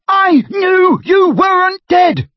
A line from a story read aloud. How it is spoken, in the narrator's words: bellowed Ron, drowning her voice for the first time